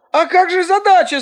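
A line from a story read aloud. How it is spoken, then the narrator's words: Shouting. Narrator (Russian): закричал Ань-Ян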